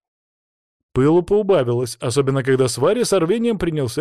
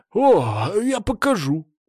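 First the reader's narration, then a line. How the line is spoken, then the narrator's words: Almost gleeful exclamation. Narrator (Russian): почти обрадованно воскликнул разбойник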